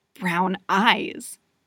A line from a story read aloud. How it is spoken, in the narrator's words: he growls